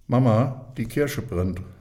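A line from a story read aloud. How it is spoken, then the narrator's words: Called out. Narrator (German): ruft Ole von der Rutsche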